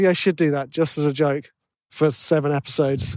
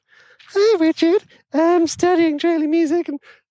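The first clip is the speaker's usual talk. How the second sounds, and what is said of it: Put-on fake voice. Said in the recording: “putting on a fake voice.”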